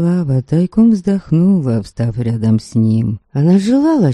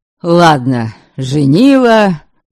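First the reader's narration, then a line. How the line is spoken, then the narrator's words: Wry snort. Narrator (Russian): Ваята хмыкнул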